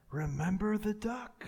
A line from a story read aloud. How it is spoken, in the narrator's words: Jenny whispered to her brother